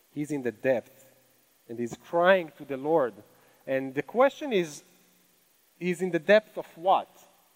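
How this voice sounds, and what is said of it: Speaks with a foreign accent. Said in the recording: “That's a really hard word for me to say with my accent”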